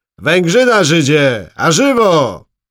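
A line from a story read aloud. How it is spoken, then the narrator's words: Booming call. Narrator (Polish): gromkim głosem zawołał pan Krasiński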